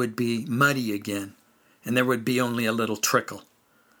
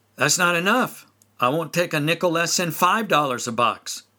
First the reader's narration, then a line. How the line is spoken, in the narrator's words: my uncle shouted